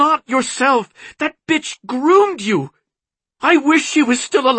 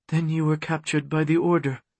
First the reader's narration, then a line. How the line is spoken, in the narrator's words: she said in a deadened voice